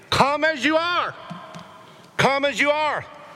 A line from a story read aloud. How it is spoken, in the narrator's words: shouted to him